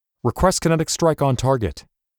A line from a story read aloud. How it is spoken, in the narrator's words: he shouted